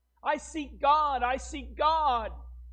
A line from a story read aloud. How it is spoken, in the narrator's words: the madman incessantly cried